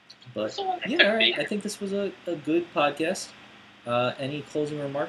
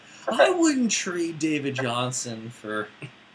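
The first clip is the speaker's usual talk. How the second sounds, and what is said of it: Imitates another person's voice. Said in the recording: “That's my Daniel impression”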